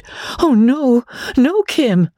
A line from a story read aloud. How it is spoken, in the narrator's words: Magnolia was horrified to find that she had almost cried